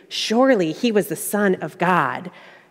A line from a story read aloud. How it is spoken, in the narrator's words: the soldiers who were guarding Jesus were terrified, exclaiming